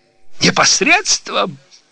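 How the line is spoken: Shout. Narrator (Russian): закричала она

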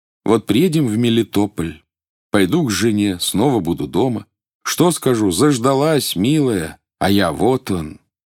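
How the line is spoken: Sighing, thoughtful. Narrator (Russian): вздохнул и потом сказал задумчиво

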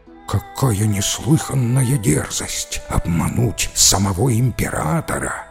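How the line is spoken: Courtiers whispering together. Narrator (Russian): зашептались придворные советники

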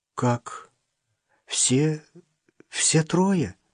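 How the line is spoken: Dejected question. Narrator (Russian): упавшим голосом спросила Катька

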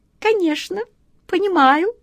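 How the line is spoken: Thin sharp little voice. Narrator (Russian): тонким острым голоском откликнулась ласточка

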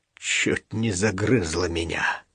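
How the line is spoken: Hoarse. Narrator (Russian): хрипло сказал

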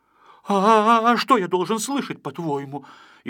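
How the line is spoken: Frightened, wary. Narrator (Russian): испуганно насторожился Пончик

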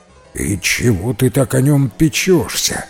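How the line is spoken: Giantess grumbling. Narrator (Russian): проворчала великанша

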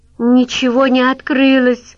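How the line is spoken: Shouted. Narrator (Russian): крикнула Арина

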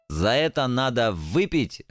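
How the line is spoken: Joyful. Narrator (Russian): радостно подмигнул черт

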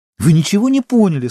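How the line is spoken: Indignant exclamation. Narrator (Russian): с возмущением воскликнула Сима

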